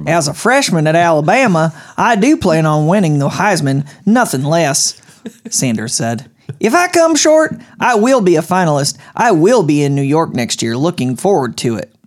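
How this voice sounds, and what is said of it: Put-on Oklahoma accent. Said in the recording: “Oklahoma accent.”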